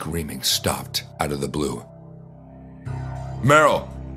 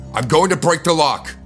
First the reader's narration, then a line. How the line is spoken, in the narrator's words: I shouted